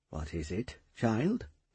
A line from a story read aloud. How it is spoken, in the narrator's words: he asked in a tender voice